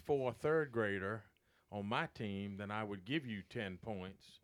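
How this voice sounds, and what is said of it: Usual voice. Nothing is said of it.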